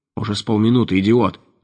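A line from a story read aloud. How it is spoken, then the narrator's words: Angry reply. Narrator (Russian): зло ответил Деменко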